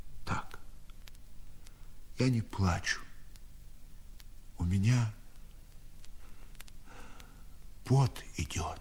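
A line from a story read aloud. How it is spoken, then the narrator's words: Old man's whisper. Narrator (Russian): Дед шепотом ответил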